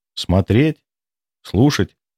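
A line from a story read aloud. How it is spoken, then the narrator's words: Calm. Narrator (Russian): сказала она спокойно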